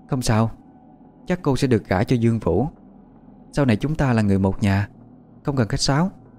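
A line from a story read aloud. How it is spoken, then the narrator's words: Sudden smiling speech. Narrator (Vietnamese): Hoa Vân bỗng mỉm cười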